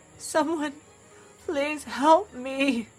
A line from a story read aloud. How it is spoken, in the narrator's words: he whimpered